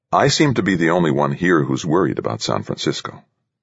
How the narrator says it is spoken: Very calmly, he replied

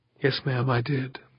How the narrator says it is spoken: the medic whispered

